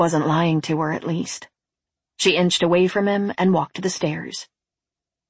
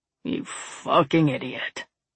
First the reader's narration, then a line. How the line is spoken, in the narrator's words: Glacier muttered